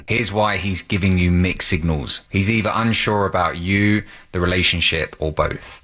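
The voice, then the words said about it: Man speaking with a distinctive accent. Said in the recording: “Advice involving a fun accent.”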